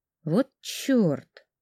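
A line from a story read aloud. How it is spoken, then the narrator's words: Annoyed mutter. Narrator (Russian): с досадой пробормотала я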